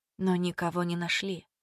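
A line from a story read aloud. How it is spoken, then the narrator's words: Whispered. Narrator (Russian): прошептала Мила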